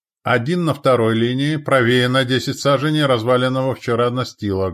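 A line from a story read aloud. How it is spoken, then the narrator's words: Loud bark. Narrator (Russian): гаркнул тот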